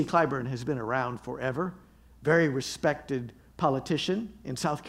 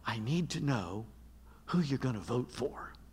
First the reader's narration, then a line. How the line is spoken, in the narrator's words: She whispered